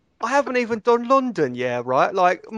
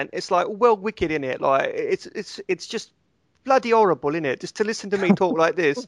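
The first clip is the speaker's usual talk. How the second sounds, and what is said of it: Put-on London accent. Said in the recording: “my London accent ... he writes like a Southern English person”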